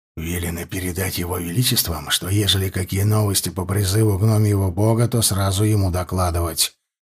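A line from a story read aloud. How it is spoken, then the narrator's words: Whisper in ear. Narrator (Russian): прошептал он мне на ухо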